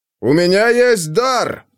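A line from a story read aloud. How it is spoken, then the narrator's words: Loud, over a squall. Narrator (Russian): сказал он громко, чтобы перекричать шумный шквал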